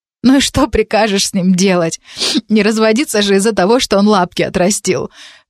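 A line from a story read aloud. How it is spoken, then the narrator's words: Sobbing question. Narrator (Russian): Перемешку со всхлипами вопрошала Лида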